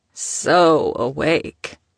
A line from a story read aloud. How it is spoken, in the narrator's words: drawled, flashing her a wry grin